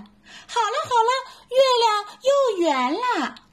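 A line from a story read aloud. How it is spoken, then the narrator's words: Little monkey, happy shout. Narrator (Chinese): 小猴子赶紧高兴的喊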